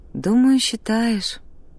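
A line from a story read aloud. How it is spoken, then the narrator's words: Sighing. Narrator (Russian): Амелия вздохнула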